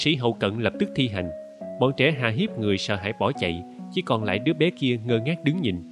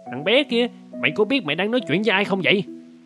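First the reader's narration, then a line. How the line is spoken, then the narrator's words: Angry loud shout. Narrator (Vietnamese): Kép ta tức giận quát lớn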